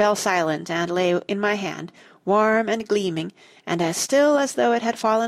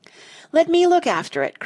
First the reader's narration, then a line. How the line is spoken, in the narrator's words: cried Missy